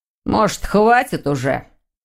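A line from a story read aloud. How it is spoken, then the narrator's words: Angry, curt. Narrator (Russian): Сердито кинул Дамиан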